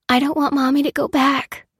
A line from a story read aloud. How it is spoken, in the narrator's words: whispered Lucy